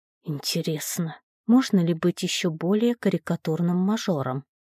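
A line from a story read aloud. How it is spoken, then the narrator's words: Muttering. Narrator (Russian): пробормотала я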